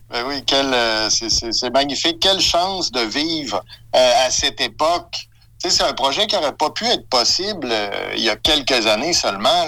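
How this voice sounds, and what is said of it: Québécois French accent. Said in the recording (French): “Québec au Canada. Ouais, parce que, bon, au niveau de l'accent, tabernacle, euh, on avait bien saisi.”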